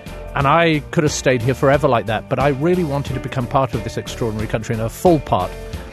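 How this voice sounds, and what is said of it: British accent. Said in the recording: “I'm a very proud Brit, as you can tell from my accent”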